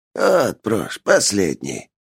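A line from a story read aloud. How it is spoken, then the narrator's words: Hoarse voice. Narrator (Russian): послышался сиплый голос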